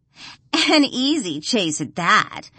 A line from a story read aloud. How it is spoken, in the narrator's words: Gia laughs